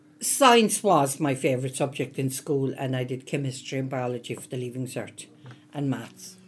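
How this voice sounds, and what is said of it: Irish Cork accent. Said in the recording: “You can gather from the accent. I'm originally from the south. Um, I'm from Cork”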